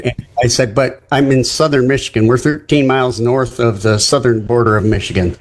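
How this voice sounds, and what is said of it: Non-Southern American accent. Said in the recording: “people obviously can tell from my voice that I'm not a Southerner”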